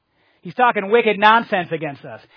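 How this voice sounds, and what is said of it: Put-on Boston accent. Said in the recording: “I started reading it in my northeastern Boston accent.”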